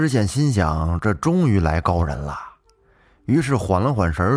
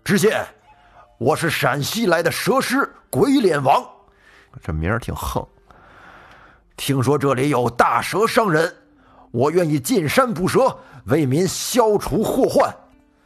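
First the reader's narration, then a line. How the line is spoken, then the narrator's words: Loud. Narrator (Chinese): 这人高声的说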